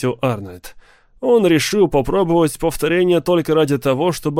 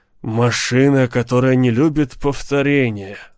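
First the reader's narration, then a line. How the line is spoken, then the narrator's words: Sigh. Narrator (Russian): вздохнул Грегор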